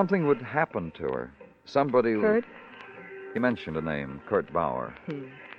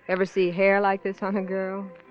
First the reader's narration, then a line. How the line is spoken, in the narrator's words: I chuckle to myself